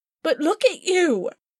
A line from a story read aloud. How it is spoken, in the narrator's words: I cried